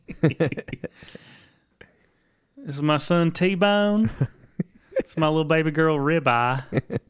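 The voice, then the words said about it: Weak put-on New Orleans accent. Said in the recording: “This is not a very good New Orleans accent either.”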